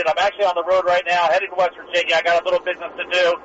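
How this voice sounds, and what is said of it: Excited, energetic speaking voice. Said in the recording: “You sound very excited there”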